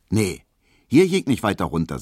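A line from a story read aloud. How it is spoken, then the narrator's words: Plain. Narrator (German): sagte Hedwig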